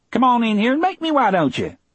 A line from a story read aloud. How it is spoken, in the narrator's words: He said happily